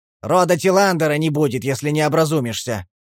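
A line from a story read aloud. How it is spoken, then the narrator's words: Shouted in local language. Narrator (Russian): Он крикнул на местном языке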